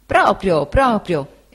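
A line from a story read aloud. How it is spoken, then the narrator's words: Exclaimed. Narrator (Italian): esclamò Cam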